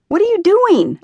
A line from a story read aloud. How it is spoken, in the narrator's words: asked him impatiently